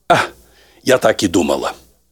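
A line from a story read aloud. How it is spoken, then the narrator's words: Deep sigh. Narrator (Russian): глубоко вздохнула и сказала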